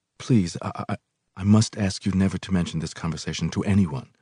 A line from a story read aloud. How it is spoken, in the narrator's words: He stammered guiltily